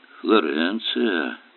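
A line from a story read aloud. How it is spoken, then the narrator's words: Muttered. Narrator (Russian): пробормотал Эллери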